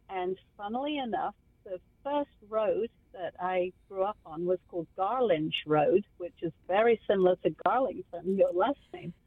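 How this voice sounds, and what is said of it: English accent, southeast England. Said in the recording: “that beautiful accent ... I came from England, from the southeast of London ... from the county of Kent”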